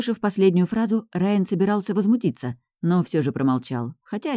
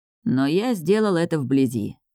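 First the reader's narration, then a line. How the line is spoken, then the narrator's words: Gloomy voice. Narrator (Russian): произнес он мрачным голосом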